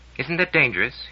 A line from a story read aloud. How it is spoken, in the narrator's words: asked anxiously